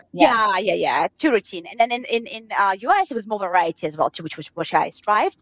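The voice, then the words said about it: Speaks with a foreign accent. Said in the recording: “I spoke with an accent.”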